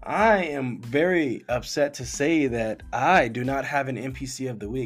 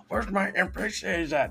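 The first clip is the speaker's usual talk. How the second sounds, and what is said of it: Impression of a friend's voice. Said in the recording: “That's my impression of him right there.”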